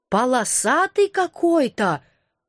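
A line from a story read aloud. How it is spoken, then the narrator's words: Surprised drawl. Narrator (Russian): удивленно протянула она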